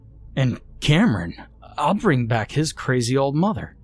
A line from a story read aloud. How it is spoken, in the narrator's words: exclaimed Damon